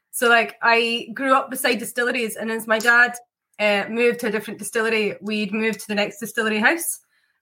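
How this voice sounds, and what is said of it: Mixed Scottish accent. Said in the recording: “I've got a very confused Scottish accent ... I had a confused accent anyway”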